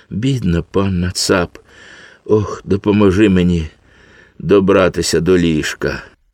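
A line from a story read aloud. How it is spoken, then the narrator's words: Moaning. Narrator (Ukrainian): простогнала панна Цап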